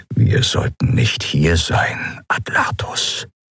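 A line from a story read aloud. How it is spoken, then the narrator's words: Whisper. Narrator (German): flüsterte Joa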